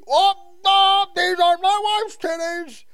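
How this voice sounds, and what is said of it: Imitates another person's voice. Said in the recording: “my new Cosby impression”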